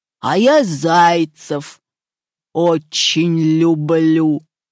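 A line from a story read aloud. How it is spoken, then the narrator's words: Wolf growling. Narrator (Russian): зарычал волк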